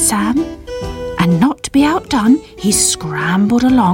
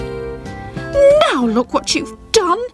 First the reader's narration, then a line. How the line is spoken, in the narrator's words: shouted Sybil angrily